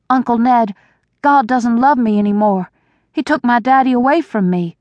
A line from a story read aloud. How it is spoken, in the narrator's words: cried